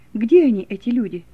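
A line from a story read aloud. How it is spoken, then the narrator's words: Plain. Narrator (Russian): спросил Вильгельм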